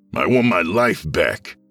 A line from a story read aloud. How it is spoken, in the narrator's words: the intruder snapped